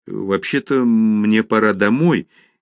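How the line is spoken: Hesitant. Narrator (Russian): неуверенно ответила она

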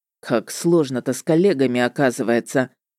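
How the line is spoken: Muttered grumble. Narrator (Russian): под нос себе буркнул он

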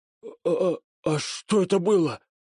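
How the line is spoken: Frightened hoarse wheeze. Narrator (Russian): Прохрипел мертвенно-бледный Котта

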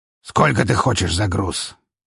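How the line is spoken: Displeased but calmer question. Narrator (Russian): Все еще недовольным, но уже не таким злым голосом, спросил Гаврилович

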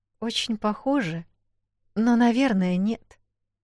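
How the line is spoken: Uncertain. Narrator (Russian): неуверенно ответила Эл

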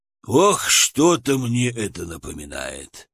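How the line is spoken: Sighing. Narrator (Russian): вздохнул медведь

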